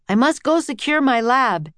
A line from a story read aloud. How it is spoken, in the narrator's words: Henry shouted to Jack and Annie